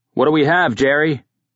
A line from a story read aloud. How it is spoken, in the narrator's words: Kearns ... called out